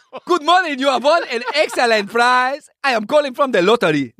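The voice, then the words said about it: Put-on foreign accent. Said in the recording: “Can I do the accent?”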